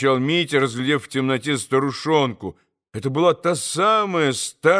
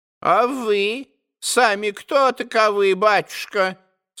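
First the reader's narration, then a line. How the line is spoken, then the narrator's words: Old woman, changed voice. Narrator (Russian): совсем другим голосом проговорила старушонка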